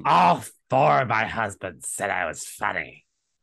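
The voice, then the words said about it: Put-on heavy-smoker character voice. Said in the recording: “how I imagine Cece talks. I reckon she like smokes forty a day ... accent ... It was not my best CC impression”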